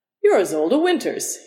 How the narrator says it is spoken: said cheerfully

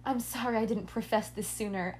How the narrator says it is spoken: I sighed

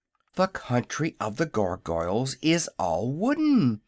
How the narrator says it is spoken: exclaimed Zeb

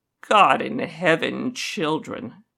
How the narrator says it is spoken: He mutters

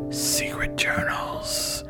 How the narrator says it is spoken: he rasped as the dark swirled his mind shut at last

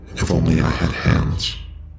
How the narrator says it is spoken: breathed

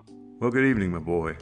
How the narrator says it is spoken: voice says coldly

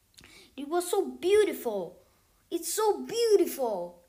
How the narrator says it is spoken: exclaimed Baltasar

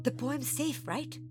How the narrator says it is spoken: Monkey whispered

